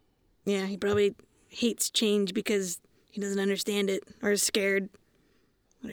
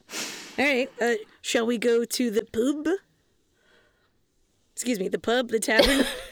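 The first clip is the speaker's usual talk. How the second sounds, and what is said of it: Put-on accent. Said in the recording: “I was trying out a little accent”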